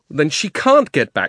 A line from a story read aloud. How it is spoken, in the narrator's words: shouted Diggory